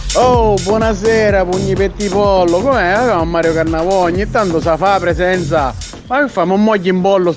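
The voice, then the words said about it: Sicilian accent, Siracusa area. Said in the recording (Italian): “Ma ha un accento ... Lentinese, di preciso. forse? ... Forse zona Siracusa si potrebbe essere.”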